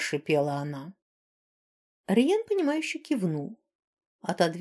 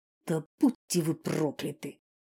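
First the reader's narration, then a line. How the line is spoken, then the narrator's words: Breathed out. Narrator (Russian): выдохнула колдунья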